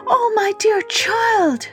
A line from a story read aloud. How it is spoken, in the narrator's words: she cried